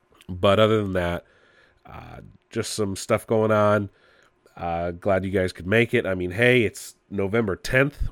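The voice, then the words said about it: Congested, muffled nasal voice. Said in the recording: “I can't really breathe through my nose ... I sound muffled ... I literally have to breathe through my mouth”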